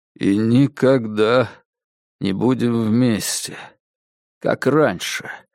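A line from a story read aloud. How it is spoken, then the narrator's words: Dull, doomed monotone. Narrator (Russian): спросил Диккенс тусклым монотонным голосом, каким приговоренный гильотине повторяет приговор судьи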